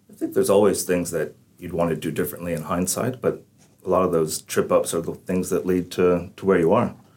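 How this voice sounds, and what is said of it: Irish-sounding accent. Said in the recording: “You sound Irish, mate. I know you're from Texas. ... you keep lapsing into this Irish accent”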